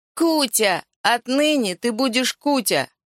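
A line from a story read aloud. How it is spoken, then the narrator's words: Shouted. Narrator (Russian): крикнул великий реалист маленькому акробату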